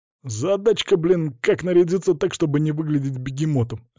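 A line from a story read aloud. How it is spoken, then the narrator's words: Loud laughing. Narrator (Russian): расхохотался лысый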